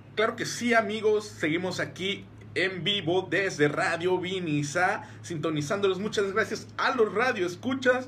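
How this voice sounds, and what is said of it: Exaggerated radio announcer voice. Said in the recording (Spanish): “es mi voz de locutor de hoy ... este locutor que hace la voz así ... sigo con mi voz de locutor”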